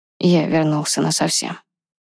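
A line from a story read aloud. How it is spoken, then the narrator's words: Quiet reply. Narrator (Russian): так же тихо ответил Ронан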